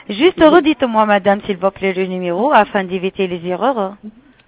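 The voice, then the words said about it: Slight Italian accent. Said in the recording (French): “Il y a un petit accent. ... je suis d'origine italienne.”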